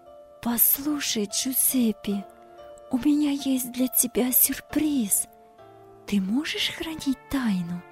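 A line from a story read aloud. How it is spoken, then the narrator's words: Excited whisper. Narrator (Russian): Девушка взволнованно шепотом сказала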